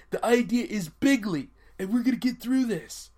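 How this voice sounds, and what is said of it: Imitates another person's voice. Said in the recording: “I know my Trump voice, hey, man, it hurts trying to do his voice ... you gotta kind of choke on your larynx”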